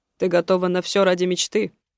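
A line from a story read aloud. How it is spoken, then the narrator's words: Gruff voice, heavy man. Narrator (Russian): грубым голосом спросил тучный мужчина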